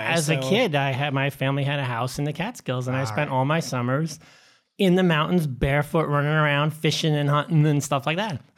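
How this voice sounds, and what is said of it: Mild New York accent. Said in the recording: “all New Yorker ... Mild accent”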